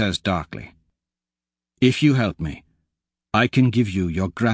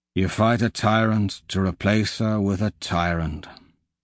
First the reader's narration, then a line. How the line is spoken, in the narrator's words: he says wearily